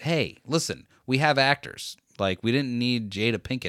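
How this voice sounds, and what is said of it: Usual voice. Nothing is said of it.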